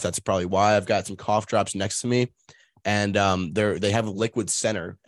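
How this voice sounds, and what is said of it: Scratchy, slightly off voice. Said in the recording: “a little bit of a scratchy throat... my voice sounds a little off”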